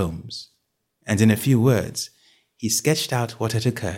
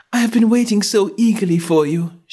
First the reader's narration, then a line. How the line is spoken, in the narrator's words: she cried